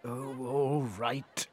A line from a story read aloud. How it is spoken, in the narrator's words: sighed the king